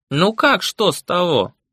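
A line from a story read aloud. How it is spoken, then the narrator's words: Exclamation. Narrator (Russian): воскликнул татарин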